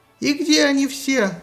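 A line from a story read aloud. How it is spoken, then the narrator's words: Shrieked. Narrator (Russian): взвизгнул Аид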